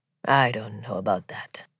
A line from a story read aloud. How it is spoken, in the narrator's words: he said quietly